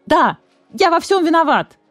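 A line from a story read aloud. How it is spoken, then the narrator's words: Yelling. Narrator (Russian): заорал барсукот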